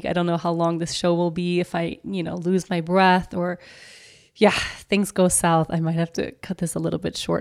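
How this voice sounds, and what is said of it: Sick, unwell-sounding voice. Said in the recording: “as you can tell by my voice, I'm not well”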